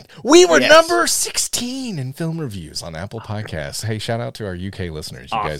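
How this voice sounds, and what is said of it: Usual voice. Nothing is said of it.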